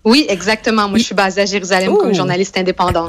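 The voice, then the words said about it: Québécois French accent. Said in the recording (French): “C'est un accent québécois ... je suis très québécoise et même ah. je, viens du Saguenay”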